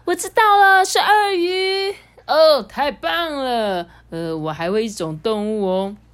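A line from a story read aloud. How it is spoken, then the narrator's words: Loud. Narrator (Chinese): 玛丽大声的说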